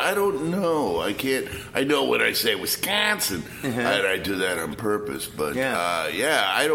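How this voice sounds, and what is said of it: Usual voice. Nothing is said of it.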